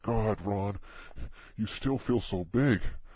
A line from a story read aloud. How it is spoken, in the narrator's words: The sudden of this caused her to gasp and say